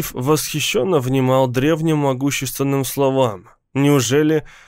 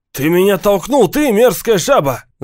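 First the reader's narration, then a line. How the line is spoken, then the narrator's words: Threatening yell. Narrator (Russian): заорал один из них, угрожая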